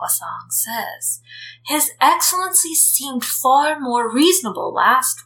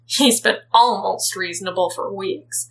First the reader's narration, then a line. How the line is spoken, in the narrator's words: Zheng Cheng says irritably